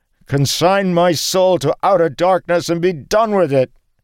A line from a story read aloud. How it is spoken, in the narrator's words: Suddenly he roared